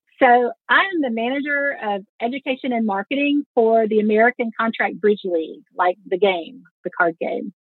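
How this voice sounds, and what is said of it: Slight Southern American accent. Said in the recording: “It's nice to hear a little Southern accent ... Yeah, there's a little in there.”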